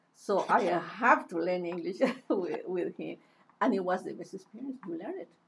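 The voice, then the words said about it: Non-native accented English. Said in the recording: “You can tell that it is not perfect. I have an accent, and I always am going to have an accent”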